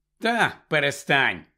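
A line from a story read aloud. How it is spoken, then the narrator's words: Grumbling. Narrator (Ukrainian): буркнув Гаррі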